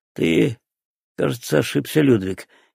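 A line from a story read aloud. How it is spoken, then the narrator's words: Quiet. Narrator (Russian): тихо сказал фриц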